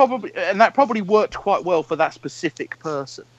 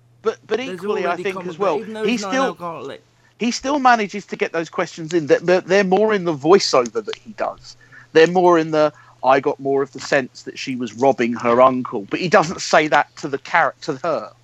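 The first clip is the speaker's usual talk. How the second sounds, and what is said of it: Imitates another person's voice. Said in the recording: “quite a good Louis Theroux impression,”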